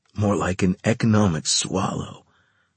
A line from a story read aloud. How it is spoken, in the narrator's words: whispered Carlos